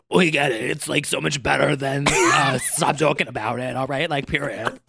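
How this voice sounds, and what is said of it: Imitates another person's voice. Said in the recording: “that was my Kandy Muse impression. It's horrible.”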